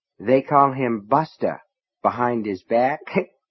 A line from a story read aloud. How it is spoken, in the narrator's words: Nettie said and giggled